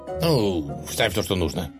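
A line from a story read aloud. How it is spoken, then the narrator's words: Irritated reply. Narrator (Russian): раздраженно ответил правитель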